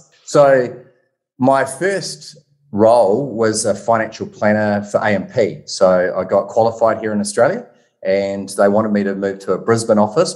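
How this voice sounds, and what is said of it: New Zealand Kiwi accent. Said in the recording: “if you haven't picked up on my Kiwi accent”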